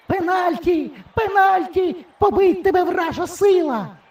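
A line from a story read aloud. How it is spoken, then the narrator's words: Old woman shrieking. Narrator (Ukrainian): верещала баба Маруся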